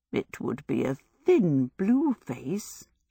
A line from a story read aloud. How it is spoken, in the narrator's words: she murmured